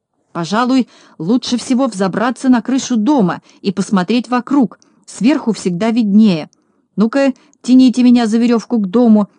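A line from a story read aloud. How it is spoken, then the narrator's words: Shouting. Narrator (Russian): закричал Знайка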